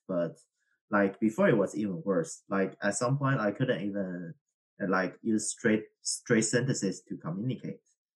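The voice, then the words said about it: Strong non-native English accent. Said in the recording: “you can hear that I have a strong accent because I learned English and French rather late”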